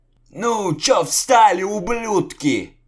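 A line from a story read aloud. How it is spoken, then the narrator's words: Exasperated yelling. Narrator (Russian): не выдержав, заорал Лукьян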